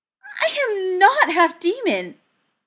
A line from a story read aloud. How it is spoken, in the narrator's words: Cordelia squeaked, turning horrified eyes on Cameron